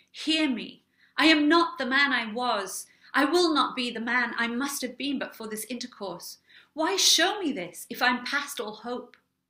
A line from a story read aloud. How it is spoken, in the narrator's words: he cried